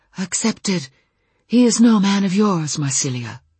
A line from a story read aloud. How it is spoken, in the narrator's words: in a light, breathy voice he said